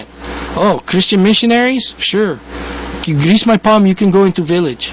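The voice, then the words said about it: Put-on Russian-sounding accent. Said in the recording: “sounding kind of Russian there. I can't get my accents right lately.”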